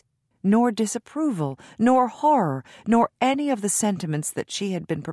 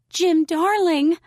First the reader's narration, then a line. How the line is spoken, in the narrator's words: she cried